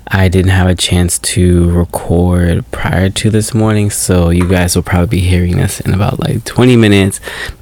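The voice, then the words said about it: Groggy early-morning voice. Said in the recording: “if I sound different, it's because this is the very first thing that I'm doing this morning ... this is my morning voice”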